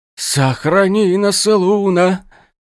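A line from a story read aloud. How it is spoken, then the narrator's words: Breathless exhale. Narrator (Russian): выдохнул один из волшебников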